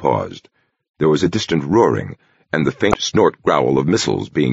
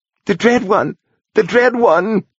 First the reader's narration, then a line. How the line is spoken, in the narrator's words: whined the old woman